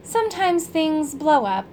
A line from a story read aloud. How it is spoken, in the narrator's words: said happily